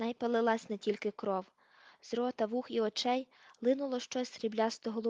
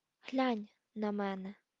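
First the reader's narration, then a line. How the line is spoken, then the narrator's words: Whisper. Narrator (Ukrainian): прошепотів він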